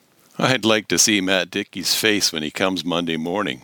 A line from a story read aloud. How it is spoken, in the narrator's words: I laughed